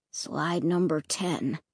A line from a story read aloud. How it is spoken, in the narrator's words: Luke murmured